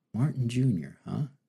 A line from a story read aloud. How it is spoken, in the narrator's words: he murmured to himself